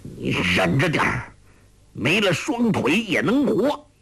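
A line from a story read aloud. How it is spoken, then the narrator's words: Through gritted teeth. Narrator (Chinese): 欧阳锋咬牙说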